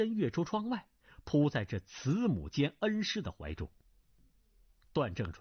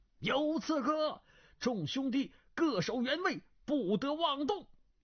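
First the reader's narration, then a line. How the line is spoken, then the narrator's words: Two voices shouting together. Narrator (Chinese): 楚万里和古赌城的声音同时叫了起来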